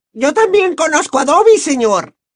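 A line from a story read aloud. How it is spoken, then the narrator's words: Shrill squeak, elf. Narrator (Spanish): chilló la elfina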